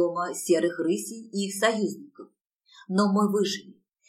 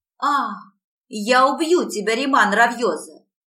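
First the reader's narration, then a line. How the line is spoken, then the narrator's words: Screaming. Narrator (Russian): вопила моя принцесса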